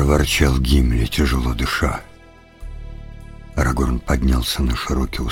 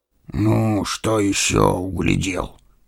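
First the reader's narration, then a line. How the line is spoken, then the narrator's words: Displeased grumble. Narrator (Russian): недовольно проворчал Гимли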